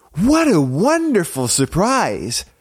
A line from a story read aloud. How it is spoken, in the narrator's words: Snow White exclaimed